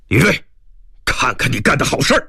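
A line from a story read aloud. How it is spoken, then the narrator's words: Angry scolding. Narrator (Chinese): 何志军怒骂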